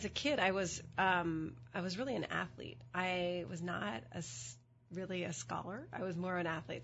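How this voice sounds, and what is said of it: Hoarse voice from a cold. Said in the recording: “I have a bit of a cold... My voice is a little bit hoarse.”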